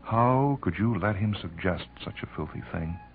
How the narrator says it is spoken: He laughed bitterly

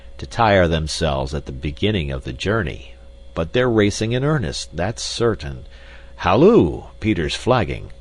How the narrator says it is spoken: growled Carl

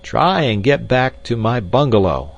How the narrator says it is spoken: I bawled in his ear

